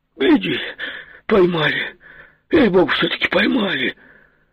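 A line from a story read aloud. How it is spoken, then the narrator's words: Half-scared, half-glad exclamation. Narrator (Russian): воскликнул, не то испуганно, не то обрадованно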